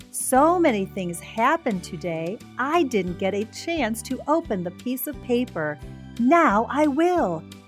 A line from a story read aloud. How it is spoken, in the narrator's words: exclaimed Amy